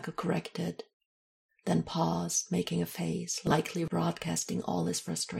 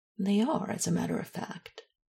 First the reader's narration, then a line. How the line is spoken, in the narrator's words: Isabel said dryly, and a little exacerbated